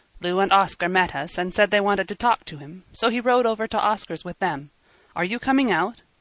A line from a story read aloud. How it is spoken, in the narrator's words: Emil asked impatiently